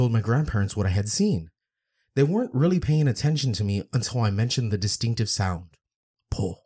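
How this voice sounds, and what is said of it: Usual voice. Nothing is said of it.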